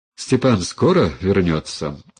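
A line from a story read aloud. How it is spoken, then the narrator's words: Bitter sigh. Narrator (Russian): Агния горько вздохнула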